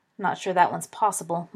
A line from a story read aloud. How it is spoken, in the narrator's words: mumbled Fabian